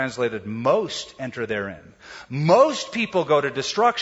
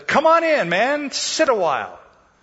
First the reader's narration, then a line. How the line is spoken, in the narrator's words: the spider cried out and said